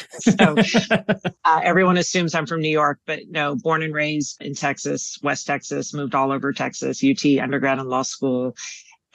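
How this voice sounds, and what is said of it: New York-sounding accent. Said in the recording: “I would have guessed you're one of us, a New Yorker, Northeasterner ... I think part of the way I talk is because my parents are both from New York.”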